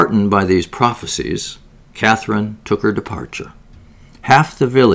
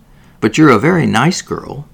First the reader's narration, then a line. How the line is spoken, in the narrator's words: said Miss Viner kindly